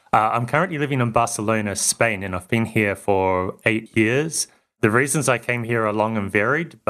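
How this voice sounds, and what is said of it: New Zealand-Australian accent. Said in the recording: “I'm from New Zealand, but partly grew up in Australia too. So that means to New Zealanders, I sound Australian, and to Australians, I sound New Zealandish, like a New Zealander.”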